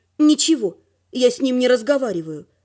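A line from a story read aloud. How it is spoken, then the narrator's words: Gloomy. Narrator (Russian): мрачно сказала я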